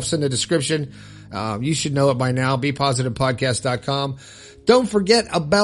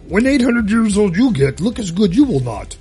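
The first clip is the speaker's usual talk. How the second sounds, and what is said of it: Yoda-style character voice. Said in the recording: “my Yoda impression”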